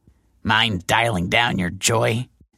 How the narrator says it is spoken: grunted

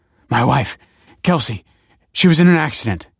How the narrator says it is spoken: he panted

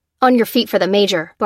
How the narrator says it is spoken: barked the Lieutenant

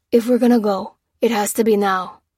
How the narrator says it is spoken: breathed Lopez

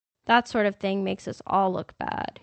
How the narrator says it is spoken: he said

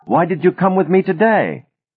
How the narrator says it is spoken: Ben shouted

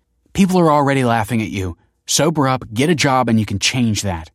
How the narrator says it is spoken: snapped Kelsey

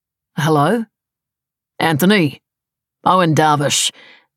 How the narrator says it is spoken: said a loud, thickly accented voice

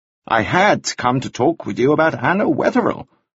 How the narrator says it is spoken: said cheerfully

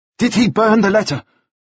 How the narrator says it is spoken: Nielsen said anxiously

